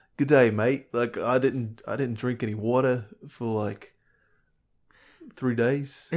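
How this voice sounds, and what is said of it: Put-on Australian accent. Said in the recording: “Let's work on an Australian.”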